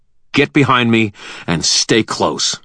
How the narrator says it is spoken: I growled

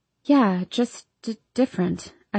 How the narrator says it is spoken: stammer

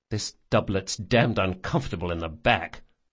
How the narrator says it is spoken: Locke muttered

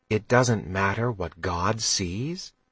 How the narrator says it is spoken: Mags asked gently

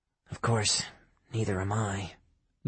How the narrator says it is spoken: Diana muttered

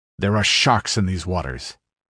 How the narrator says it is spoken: growled Zaparavo

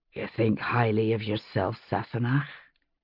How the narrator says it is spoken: he said, his voice husky

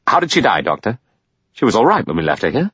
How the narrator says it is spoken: Lombard said impatiently

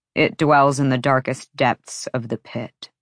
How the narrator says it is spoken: Rune answered

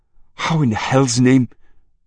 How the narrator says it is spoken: Marie gasped

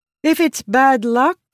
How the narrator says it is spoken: Rissin said, her voice louder

